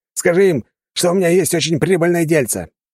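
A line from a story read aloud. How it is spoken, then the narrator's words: Shouting after someone. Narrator (Russian): Прокричал он вслед убегающему дворецкому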